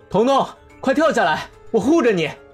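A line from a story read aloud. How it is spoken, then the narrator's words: Loud shout. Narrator (Chinese): 男友立刻大声喊他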